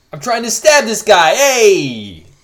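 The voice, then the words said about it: Put-on New York accent. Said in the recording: “everyone's got a New York accent ... this is terrible”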